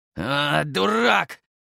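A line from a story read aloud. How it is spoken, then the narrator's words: Strained words in pain. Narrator (Russian): выдавил сержант, потому что его лицо снова сжалось от приступа боли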